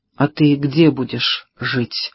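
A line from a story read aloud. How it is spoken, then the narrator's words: Trembling female question. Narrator (Russian): спросила Пэрис дрогнувшим голосом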